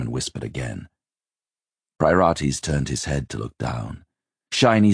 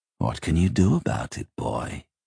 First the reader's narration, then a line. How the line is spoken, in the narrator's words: the smile said